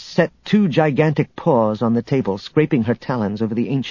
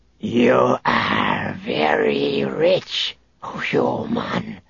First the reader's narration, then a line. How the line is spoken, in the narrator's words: the Drachmarian warlord hissed through the speakers of her helmet